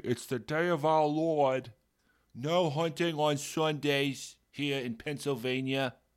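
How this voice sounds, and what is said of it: Put-on Massachusetts accent. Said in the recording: “I don't know why I'm doing a Massachusetts accent.”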